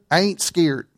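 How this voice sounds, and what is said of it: Flat put-on Kentucky accent. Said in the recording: “in the flattest Kentucky accent that I could”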